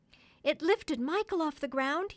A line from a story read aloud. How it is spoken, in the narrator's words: cried